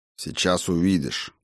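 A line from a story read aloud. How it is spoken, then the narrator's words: Mutter. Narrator (Russian): буркнул Тан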